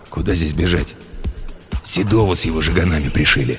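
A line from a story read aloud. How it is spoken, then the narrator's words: Grumbled mutter. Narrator (Russian): буркнул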